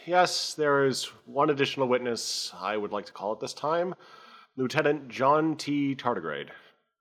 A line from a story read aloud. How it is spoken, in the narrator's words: sighs, and says